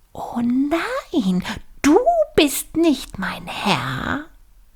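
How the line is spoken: Cry out. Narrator (German): schrie er auf

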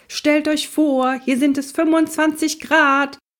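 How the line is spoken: Shouting man. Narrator (German): schrie Onkel Max

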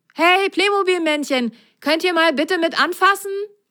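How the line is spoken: Calling out. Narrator (German): rief er

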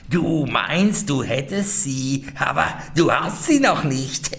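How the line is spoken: Old woman, venomous laughter. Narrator (German): die Alte lachte giftig und sprach

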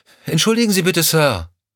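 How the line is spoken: Calling after someone. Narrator (German): rief Lorna ihm hinterher

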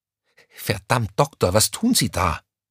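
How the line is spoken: Panicked hiss. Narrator (German): zischte Crescentia Rausch ihm panisch hinterher

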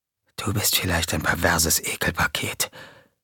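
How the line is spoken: Whispered. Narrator (German): wisperte JJ

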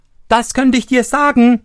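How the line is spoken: Interrupting shout. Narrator (German): rief Daumestick dazwischen

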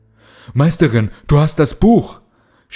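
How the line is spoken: Shouting while running. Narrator (German): schrie Kalle, als sie aus der Siedlung rannten

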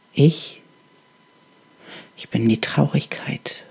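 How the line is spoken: Halting, barely audible whisper. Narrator (German): flüsterte die Stimme, stockend und so leise, dass sie kaum zu hören war

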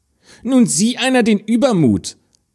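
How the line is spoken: Stepsister exclaiming. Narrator (German): rief die Stiefschwester

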